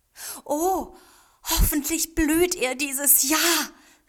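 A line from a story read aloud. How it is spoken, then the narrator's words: Hopeful exclamation. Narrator (German): rief Taichi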